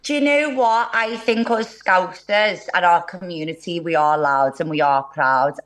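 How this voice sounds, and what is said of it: Scouse Liverpool accent. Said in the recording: “I love the accent”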